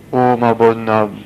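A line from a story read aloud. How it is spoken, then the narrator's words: Plain. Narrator (French): répondit Saint Dominique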